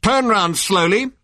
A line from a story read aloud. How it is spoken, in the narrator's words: barked the voice